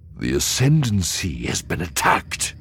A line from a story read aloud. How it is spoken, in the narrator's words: The speaker for the Myth family cut in gravely